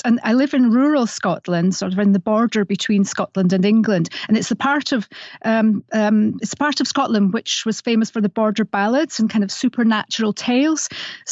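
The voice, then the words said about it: Slight Scottish accent. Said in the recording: “I have a slight Scottish accent”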